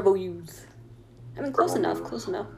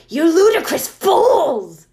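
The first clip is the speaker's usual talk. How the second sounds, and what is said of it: Angry shouting old wizard voice. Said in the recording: “kept shouting at us angrily ... here's my pissed off Dumbledore impression”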